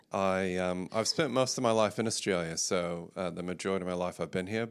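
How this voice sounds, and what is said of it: Slight mid-Pacific accent. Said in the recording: “a slight accent ... my wife calls my accent mid-Pacific now, so it can be confusing”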